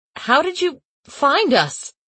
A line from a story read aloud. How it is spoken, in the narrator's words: I stammered